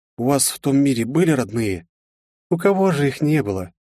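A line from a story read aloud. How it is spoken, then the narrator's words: Sad, pained. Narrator (Russian): грустно улыбнулась девушка с отчетливой болью в глазах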